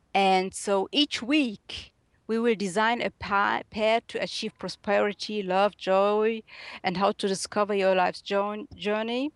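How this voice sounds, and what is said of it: German accent. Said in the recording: “I hope you understand me well with my German accent”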